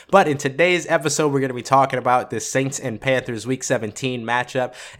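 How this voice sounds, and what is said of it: Voice slightly sick. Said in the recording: “I have been crazy sick, and you can probably still hear it in my voice a little bit”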